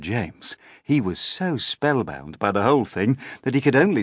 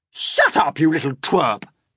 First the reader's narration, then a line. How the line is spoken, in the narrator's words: Aunt Spiker snapped